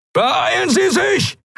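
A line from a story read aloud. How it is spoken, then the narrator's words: Shouted. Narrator (German): schrie Telios in den Kubus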